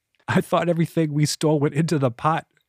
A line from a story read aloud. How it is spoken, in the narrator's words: Henley said, still failing to stifle his laughter